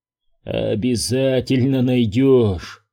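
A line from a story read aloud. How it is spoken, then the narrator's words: Hoarse voice. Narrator (Russian): хрипло произносит Кейн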